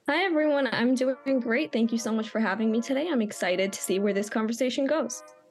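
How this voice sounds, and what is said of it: American accent. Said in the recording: “judging by the accent, we've got someone who is podcasting from the land where the race is happening ... Whereabouts in America are you from”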